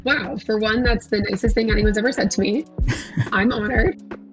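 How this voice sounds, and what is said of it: Scratchy, partly lost voice. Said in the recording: “I lost my voice this week ... I know it sounded a little bit scratchy. It's actually gotten a lot better ... my voice is a little in and out”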